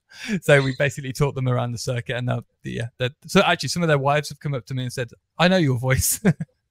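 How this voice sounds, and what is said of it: Birmingham (Brummie) English accent. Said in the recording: “Brummy accent”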